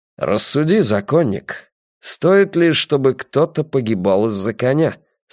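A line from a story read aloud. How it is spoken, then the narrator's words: Plain. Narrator (Russian): спросил Драккайнен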